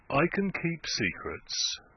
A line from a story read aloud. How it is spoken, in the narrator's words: said Venn gently